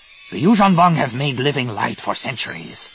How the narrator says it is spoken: Nomanor snapped

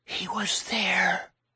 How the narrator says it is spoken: Gracie whispered

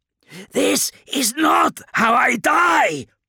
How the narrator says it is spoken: Kurz's shout was desperate, a mixture of anger and confusion

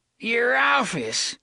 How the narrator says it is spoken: the old bastard cackled

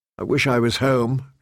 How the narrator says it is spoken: she said miserably

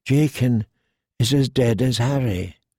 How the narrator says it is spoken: he said sadly

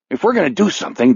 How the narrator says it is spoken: Dale blurts

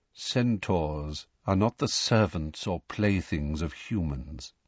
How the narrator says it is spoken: said Firenze quietly

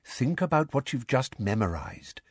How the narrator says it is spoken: said Lupin quietly

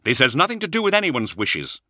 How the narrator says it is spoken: snapped

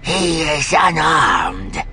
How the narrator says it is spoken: the robed alien said in his gravelly voice

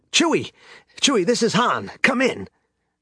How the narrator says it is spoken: Han had been frantically trying to raise Chewbacca on his comlink

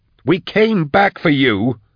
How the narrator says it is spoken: Drusha snarled

